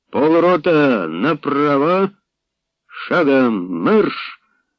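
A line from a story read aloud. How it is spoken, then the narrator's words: Hoarse shout from aside. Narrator (Ukrainian): Збоку захрипів Нестеренко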